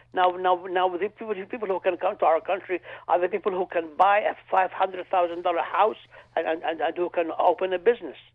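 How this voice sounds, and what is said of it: Non-native English accent. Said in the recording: “based on your accent, I would suggest that you are not originally from this country”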